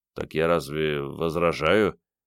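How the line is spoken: Uncertain mumble. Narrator (Russian): неуверенно пробормотал Андрей

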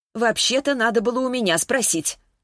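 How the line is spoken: Mock-angry tone. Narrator (Russian): Клавдия говорила сердито, но откуда-то было понятно, что она совсем не сердится

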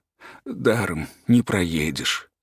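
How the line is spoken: Quiet. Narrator (Russian): сказал тихо

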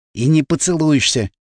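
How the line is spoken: Whisper in ear. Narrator (Russian): шепнул я ей на ухо

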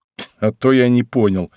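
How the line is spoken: Snorting. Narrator (Russian): хмыкнул я

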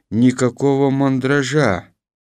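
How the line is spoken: Calm reply. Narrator (Russian): спокойно ответил Беланов

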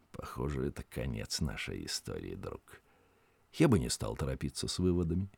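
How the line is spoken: Quiet. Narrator (Russian): Синдбад тихо сказал Пахту

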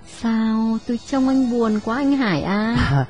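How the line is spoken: Soft speech. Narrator (Vietnamese): khẽ nói

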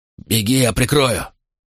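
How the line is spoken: Father's hoarse rasp. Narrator (Russian): прохрипел отец

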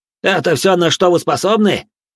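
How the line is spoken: Loud question to crowd. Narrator (Russian): громко спросил, так, чтобы все на трибунах услышали

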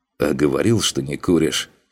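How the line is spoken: Amused snort. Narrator (Russian): Хмыкнул Макс

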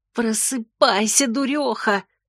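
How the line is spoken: Woman's voice hissing. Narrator (Russian): шипел женский голос

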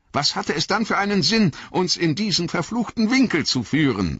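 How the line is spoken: Shouted. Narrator (German): rief Boromir

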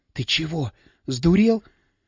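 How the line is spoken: Terrified whisper. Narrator (Russian): В ужасе зашептала она

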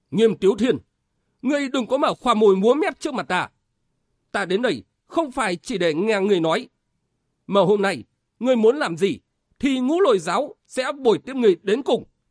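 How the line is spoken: Furious. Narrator (Vietnamese): Tấn Lôi Thủ Khang Nghênh Sơn giận dữ đến đỏ mặt nói

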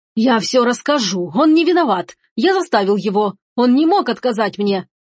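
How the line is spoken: Shouting with all strength. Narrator (Russian): кричал изо всех сил Алоис Марсо

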